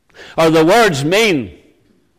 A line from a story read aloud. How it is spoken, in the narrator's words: they cried out louder